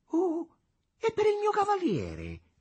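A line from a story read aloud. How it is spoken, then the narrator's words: Sudden exclamation. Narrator (Italian): esclamò come sovvenendosi all'improvviso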